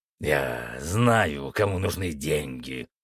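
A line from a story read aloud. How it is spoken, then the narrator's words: Growling. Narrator (Russian): прорычал Фенрис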